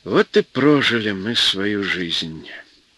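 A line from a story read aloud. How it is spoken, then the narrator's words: Quiet old man. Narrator (Russian): негромко сказал городской старик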